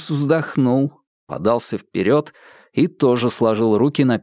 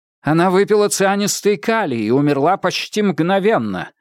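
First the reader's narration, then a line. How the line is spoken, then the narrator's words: Sharp. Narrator (Russian): резко ответил Адамс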